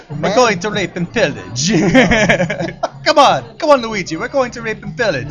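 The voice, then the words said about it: Comedic put-on ethnic accent. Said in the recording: “That was my racist impression”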